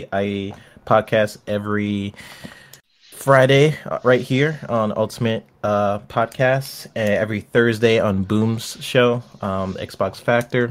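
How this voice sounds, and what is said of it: Sick, under-the-weather voice. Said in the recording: “hear the sickness in your voice, ... under the weather”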